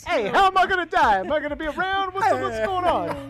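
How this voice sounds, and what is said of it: Vaguely Italian put-on accent. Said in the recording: “You did a vaguely Italian accent”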